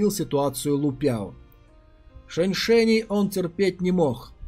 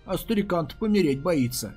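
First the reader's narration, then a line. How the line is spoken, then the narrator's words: Laughing. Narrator (Russian): засмеялся Лу Пяо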